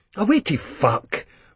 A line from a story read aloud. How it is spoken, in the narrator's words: Renton convincingly snaps